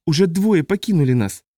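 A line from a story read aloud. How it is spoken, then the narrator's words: Sobbing. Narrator (Russian): всхлипнула Сандра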